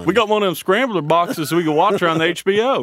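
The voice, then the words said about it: Hank Hill impression, thick Southern accent. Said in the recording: “my dad has such a thick accent ... Does he have a really thick Southern accent? ... My dad sounds like Hank Hill from ... King of the Hill.”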